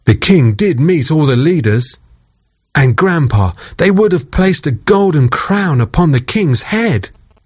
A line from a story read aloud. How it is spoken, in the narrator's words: sighed Grandpa